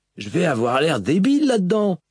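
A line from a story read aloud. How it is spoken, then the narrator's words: Grumbled. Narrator (French): grommela Moash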